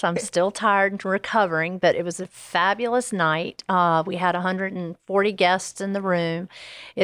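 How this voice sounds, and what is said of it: Slightly hoarse, tired voice. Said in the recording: “my voice might be a little hoarse.”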